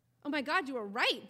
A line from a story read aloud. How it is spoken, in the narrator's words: Dre exclaims